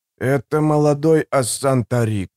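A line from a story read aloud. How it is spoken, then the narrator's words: Preacher's hoarse whisper. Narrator (Russian): хрипло прошептал проповедник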